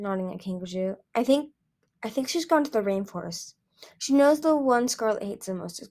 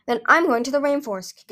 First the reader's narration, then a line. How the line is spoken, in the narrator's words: Kikaju said fiercely